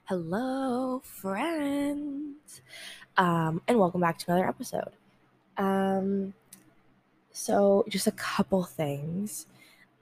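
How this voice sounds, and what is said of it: Nasal, congested voice. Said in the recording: “I sound weird ... I might sound kind of nasally ... I'm so congested”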